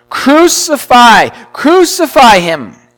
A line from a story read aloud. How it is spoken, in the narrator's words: they cried, saying